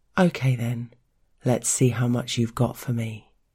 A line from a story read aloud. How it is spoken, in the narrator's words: sighing